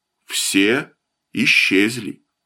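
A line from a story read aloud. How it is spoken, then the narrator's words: Calm, matter-of-fact. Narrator (Russian): Муж спокойно, словно речь шла о погоде, заметил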